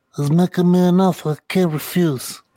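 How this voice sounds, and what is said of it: A fairly good impression. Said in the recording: “It's actually not a bad impression.”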